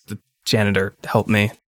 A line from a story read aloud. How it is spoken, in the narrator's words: Greg just like mutters